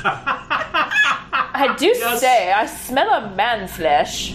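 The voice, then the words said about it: Put-on uptight posh British accent. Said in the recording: “Can we give them like really uptight British accents ... It's all Judi Dench style stuff like that.”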